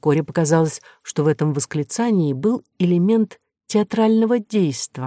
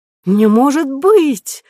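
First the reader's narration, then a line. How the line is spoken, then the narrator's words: Sudden old woman's exclamation. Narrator (Russian): вдруг воскликнула бабушка из семейства Романовых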